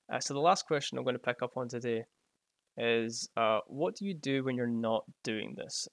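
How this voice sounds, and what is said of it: Noticeable regional accent. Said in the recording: “I've got a great accent”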